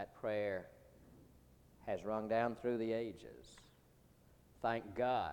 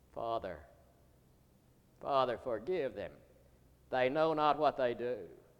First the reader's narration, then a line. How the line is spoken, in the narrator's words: he cried